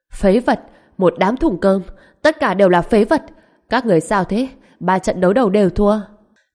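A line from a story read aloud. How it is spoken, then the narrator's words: Furious shouting. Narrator (Vietnamese): Ông ta nổi giận giận dữ hét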